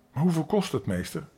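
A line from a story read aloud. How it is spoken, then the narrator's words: Plain question. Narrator (Dutch): vroeg Dick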